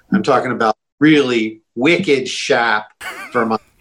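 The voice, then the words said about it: Put-on New England Boston accent. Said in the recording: “he busted out the New England Boston accent. Fantastic.”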